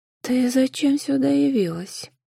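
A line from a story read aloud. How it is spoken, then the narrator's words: Rustling voice. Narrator (Russian): Шелестящим голосом произнесла та, что была змеёнышем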